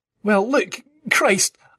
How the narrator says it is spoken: I spluttered anyway, knowing I had to keep talking until the very end

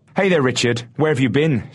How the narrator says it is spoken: shouted the man

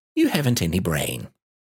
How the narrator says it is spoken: said Rabbit kindly

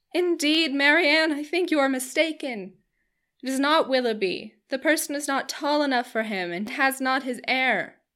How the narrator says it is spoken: Eleanor cried out

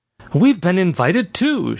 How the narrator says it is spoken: she blurted

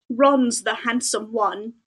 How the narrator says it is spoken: muttered Harry

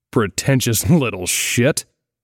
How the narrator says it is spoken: he grunted

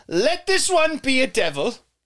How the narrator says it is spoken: she snapped and raised her hands to the sky and shouted

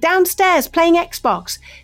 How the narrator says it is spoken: shouted

